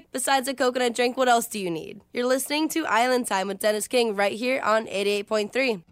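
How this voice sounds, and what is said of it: Soothing radio DJ voice. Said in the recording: “cool breeze, soothing DJ voice”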